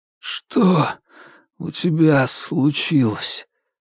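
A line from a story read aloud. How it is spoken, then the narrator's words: Sudden hoarse question. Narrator (Russian): вдруг хрипло спросил Игорь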